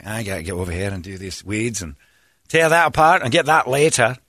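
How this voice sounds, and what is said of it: Put-on Scottish accent. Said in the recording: “I speak to myself in a Scottish accent, and I can't control it.”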